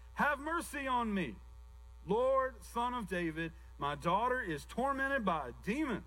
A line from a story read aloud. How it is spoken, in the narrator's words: a Canaanite woman started shouting